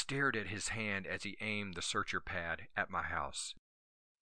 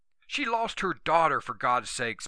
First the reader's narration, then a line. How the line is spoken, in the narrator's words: Macy yelled